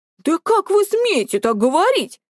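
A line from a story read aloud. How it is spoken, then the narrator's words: Indignant wail. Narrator (Russian): возмущенно заголосил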